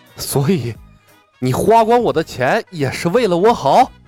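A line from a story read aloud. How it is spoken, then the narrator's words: Panting, sneering. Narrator (Chinese): 苏汤喘着粗气，冷笑道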